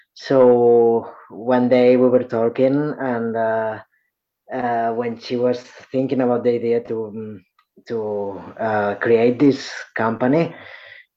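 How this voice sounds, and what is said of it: Non-native English accent. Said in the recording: “as probably you can see for my accent, I'm English is not my first language”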